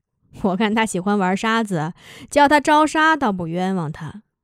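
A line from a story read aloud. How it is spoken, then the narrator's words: Laughing. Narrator (Chinese): 柳沙笑着说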